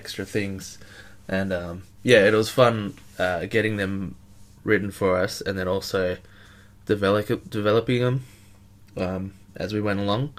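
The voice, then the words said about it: Sniffly, congested voice. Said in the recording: “excuse my voice, I'm a little bit sniffly”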